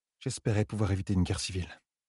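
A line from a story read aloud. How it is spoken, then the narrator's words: Murmur, thinking aloud. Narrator (French): murmura-t-elle, comme si elle pensait tout haut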